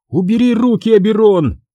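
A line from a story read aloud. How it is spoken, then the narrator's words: Struggling woman's shout. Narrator (Russian): крикнула женщина, вырываясь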